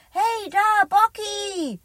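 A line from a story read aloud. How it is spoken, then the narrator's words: Calling out. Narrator (German): ruft Elliot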